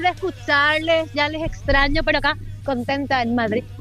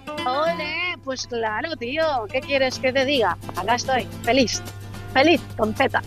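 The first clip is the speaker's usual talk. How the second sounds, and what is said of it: Put-on Spanish (Spain) accent. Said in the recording (Spanish): “lo hagas con el acento español, tía”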